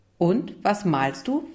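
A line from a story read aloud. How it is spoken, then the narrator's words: Plain. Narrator (German): fragte Leon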